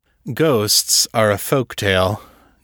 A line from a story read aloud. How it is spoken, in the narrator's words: Janus said, a bit stiffly